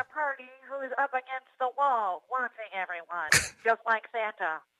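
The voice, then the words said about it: Sounds like a voice assistant. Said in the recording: “this Dave impersonation is closer to Alexa than Dave”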